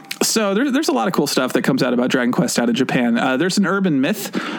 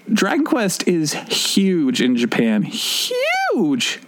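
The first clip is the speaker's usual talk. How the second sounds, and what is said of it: Sudden high-pitched exclamation. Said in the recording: “That was a really high voice.”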